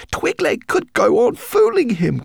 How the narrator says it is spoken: cried Guinevere

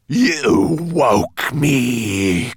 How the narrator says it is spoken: croaked this ghastly creature

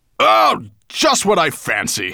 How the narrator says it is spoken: growled

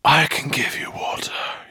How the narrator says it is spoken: breathed

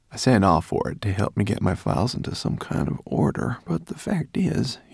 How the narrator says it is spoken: he sighed

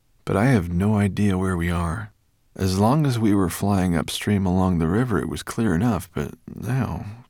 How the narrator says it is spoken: said Ben, with a sigh

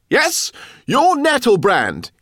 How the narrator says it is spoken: he cried

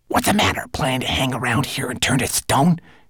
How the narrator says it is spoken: hissed Twigleg

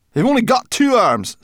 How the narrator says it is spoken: snapped Sorrel

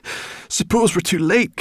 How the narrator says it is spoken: gasped Sorrel

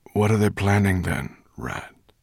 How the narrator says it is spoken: asked Slatebeard wearily

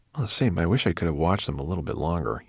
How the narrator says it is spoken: murmured

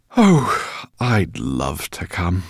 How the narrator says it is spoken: sighed the professor

